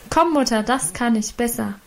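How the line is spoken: Called out. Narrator (German): rief sie dazu

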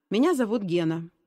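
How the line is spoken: Calm newcomer. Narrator (Russian): спокойно произнес новенький

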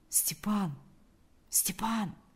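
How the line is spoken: Quiet call. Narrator (Russian): позвал он тихо

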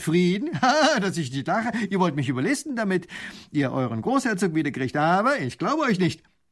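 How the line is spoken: Laughing scornfully. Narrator (German): lacht der Leutnant

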